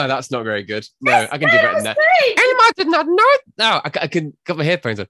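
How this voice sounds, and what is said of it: Usual voice. Nothing is said of it.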